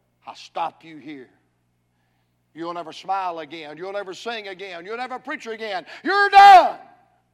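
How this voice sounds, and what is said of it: Menacing demon character voice. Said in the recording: “that old demon voice from hell”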